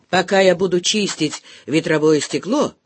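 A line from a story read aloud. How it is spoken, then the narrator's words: Good-natured grumble. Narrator (Russian): пробурчал вполне добродушно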